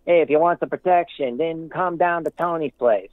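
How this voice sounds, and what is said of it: Poor put-on Italian accent. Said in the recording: “my poor attempt at an Italian accent ... that was more of a redneck”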